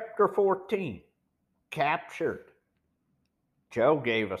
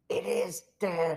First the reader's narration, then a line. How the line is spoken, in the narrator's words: whispered hoarsely